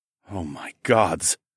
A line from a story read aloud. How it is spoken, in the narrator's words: I muttered